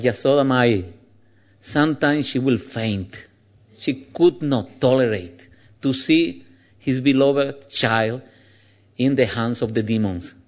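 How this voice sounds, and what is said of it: Andalusian-accented English. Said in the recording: “I have a special accent of English. It is called Anglaluz. It's because I'm from Andalusia. So we have a special accent there.”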